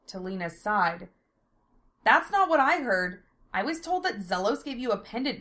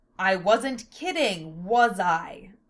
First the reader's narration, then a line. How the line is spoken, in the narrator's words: Lena sneered